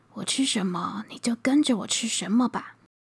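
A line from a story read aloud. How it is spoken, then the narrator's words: Sighing, resolute. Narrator (Chinese): 佘世友咬咬牙，叹了口气说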